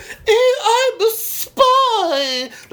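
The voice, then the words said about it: Put-on posh British accent. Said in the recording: “That's my really great British accent. ... That was a killer Niven.”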